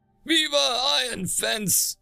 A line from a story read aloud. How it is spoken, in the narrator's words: the rest of the patrons, her husband included, called out